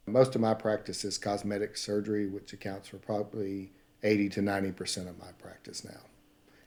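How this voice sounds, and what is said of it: Southern US accent. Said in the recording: “That southern accent you have”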